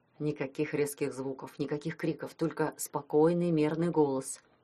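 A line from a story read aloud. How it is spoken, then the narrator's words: Whisper. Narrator (Russian): шепнул он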